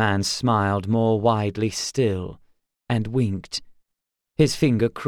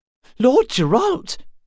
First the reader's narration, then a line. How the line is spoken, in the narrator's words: he gasped